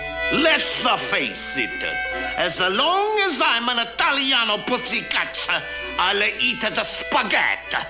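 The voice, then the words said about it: Exaggerated Italian accent. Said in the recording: “this is where the accent went even more overboard”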